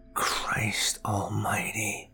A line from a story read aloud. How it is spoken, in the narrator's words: I whispered out loud to no one